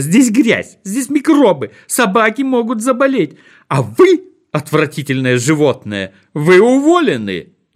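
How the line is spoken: Shouting. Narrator (Russian): закричала она

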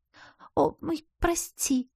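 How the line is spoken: Frightened squeak. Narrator (Russian): Пискнула подруга испуганно

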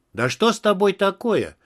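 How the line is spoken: Irritated exclamation. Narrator (Russian): раздраженно воскликнул я

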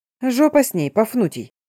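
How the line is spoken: Rude, coarse reply. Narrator (Russian): грубо ответила Агнес

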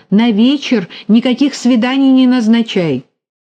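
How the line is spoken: Shout. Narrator (Russian): она крикнула

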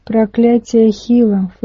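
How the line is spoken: Snort. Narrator (Russian): фыркнул Гудзон

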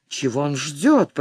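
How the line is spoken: Muttered. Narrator (Russian): пробормотал Блэксерн

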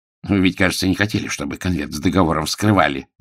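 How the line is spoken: Spiteful. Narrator (Russian): злобно проговорил мсье Блан

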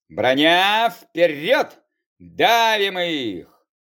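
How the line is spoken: Bold booming voice. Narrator (Russian): Молодцевато прогудел

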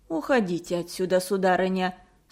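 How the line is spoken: Cold. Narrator (Russian): сказала холодно

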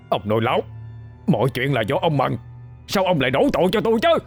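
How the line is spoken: Panicked yelling. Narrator (Vietnamese): thầy Năm gào lên, giọng đầy hoảng loạn

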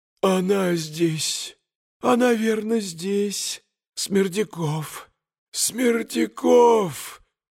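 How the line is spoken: Barely audible old man's wheeze. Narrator (Russian): Чуть слышно хрипел старик

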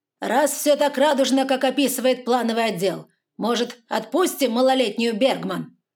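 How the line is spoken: Barking shout. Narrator (Russian): гаркнул Выдрин

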